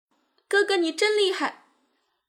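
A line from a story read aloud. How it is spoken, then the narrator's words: Tearful, shrill. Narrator (Chinese): 弟弟泪流满面的尖声说道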